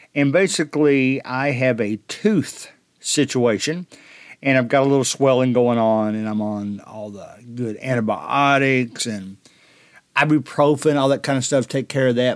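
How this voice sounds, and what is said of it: Impaired, bad-sounding speaking voice. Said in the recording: “apologize for my voice. I didn't realize how bad it sounded until I was editing ... it actually is affecting my talking right now”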